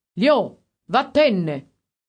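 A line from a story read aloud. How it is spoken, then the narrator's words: Master shouting harshly. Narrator (Italian): il padrone, che sembrava un cane pure lui, e gli ha gridato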